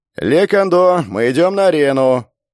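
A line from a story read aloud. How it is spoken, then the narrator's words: Unfamiliar voice. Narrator (Russian): послышался незнакомый голос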